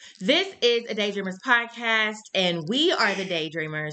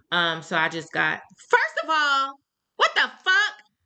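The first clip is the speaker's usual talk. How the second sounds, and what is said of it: Yelling. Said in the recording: “Why are you yelling?”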